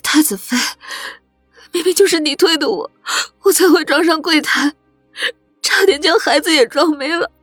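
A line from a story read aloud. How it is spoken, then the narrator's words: Tearful retort. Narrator (Chinese): 柳仁娜就带着哭腔的反驳出声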